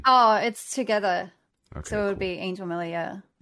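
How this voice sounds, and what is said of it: Australian or New Zealand accent. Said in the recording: “I love this accent. Like, I love Australians and New Zealand people”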